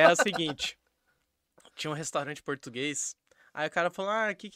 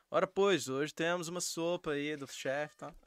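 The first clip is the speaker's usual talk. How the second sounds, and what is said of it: Put-on European Portuguese accent. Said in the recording (Portuguese): “Eu não sei imitar um português ... parece um é, português mesmo”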